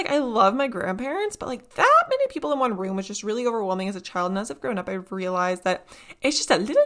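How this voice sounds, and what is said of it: Usual voice. Nothing is said of it.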